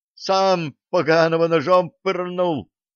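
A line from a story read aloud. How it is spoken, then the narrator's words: Excited guffaw. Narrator (Russian): азартно расхохотался в ответ тот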